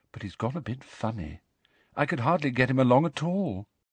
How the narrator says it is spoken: said Luna sadly

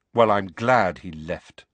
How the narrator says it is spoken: Harry said coldly

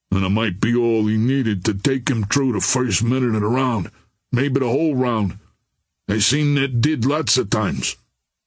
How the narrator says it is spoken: grumbled Cassidy

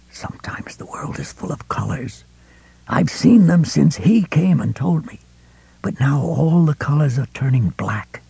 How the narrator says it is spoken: he whispered

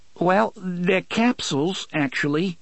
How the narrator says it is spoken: said nervously

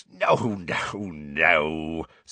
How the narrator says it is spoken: said Hagrid, chuckling

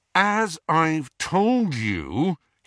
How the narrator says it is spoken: said through gritted teeth

